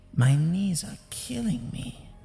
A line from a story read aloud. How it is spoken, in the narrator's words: she said in a feeble voice